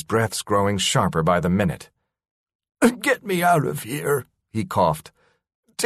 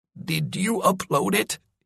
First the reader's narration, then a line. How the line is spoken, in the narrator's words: He wheezed